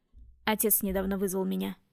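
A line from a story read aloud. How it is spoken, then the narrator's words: Calm reply. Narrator (Russian): спокойно ответил Гедеон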